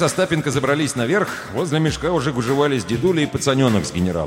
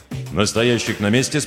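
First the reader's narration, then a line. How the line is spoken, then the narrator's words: Plain. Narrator (Russian): спросил Колесник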